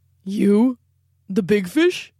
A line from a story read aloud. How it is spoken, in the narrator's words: rumbled the pike